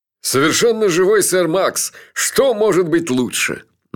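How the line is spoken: Mocking. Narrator (Russian): насмешливо сказал Джуфин

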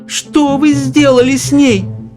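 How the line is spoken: Shouting. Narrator (Russian): закричала миссис Бакет

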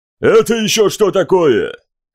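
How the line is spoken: Barked. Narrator (Russian): рявкнул Центурион

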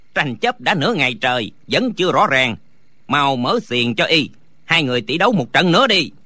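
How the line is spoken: Shouted command. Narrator (Vietnamese): Lý Tứ quát lên

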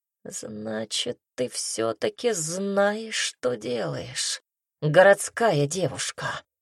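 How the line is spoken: Low growling voice. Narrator (Russian): сказал низким рычащим голосом

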